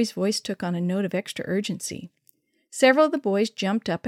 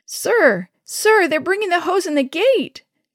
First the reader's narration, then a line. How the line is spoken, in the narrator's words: Joey fairly squealed